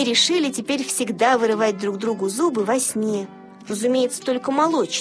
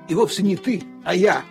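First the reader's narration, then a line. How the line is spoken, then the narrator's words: Grumbling. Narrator (Russian): проворчал Лассе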